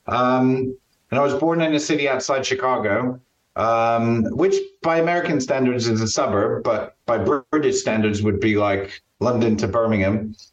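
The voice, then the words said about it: American accent. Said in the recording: “I was born in the States, so I'm not putting on this accent to sound different in Stratford upon Avon”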